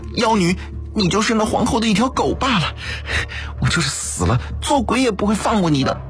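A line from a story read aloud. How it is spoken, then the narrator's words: Tearful, grieving anger. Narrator (Chinese): 赵瑜略带哭腔，悲愤怒道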